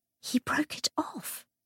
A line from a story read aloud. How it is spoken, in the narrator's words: Cordelia whispered